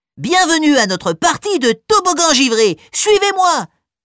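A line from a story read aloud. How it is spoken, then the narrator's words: Exclaimed. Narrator (French): s'exclame le plus grand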